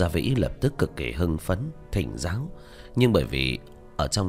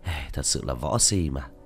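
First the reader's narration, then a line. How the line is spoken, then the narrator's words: Exasperated sigh. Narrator (Vietnamese): cạn lời thở dài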